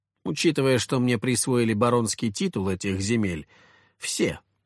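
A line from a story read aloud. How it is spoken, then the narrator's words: Calm reply. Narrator (Russian): спокойно ответил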